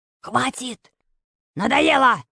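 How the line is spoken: Menacing bark. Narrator (Russian): рявкнул грозный голос

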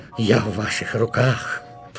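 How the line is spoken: Groaning. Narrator (Russian): простонал Шептунов

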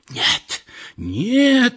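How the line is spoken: Sick woman's strange scream. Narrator (Russian): закричала больная каким-то особым, не бабушкиным голосом

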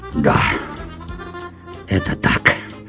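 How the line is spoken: Hollow, muffled voice. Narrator (Russian): глухо произнес он

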